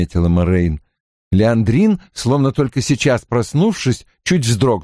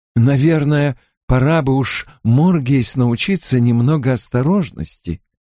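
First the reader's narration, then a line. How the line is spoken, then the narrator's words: Sighing. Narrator (Russian): вздохнула Аная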